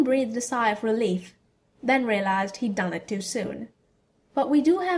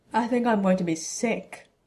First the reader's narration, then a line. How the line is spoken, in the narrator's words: Ron groaned